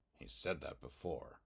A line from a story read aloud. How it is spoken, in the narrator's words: muttered Jake